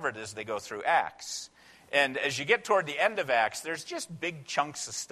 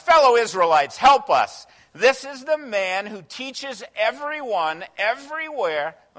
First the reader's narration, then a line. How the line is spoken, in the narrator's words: shouting